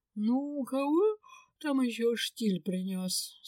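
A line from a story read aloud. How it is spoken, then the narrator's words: Sleepy grumble. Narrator (Russian): сонно проворчала Линда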